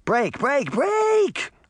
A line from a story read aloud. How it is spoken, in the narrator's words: She shouted